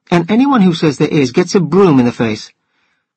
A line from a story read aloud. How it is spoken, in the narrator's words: she exclaimed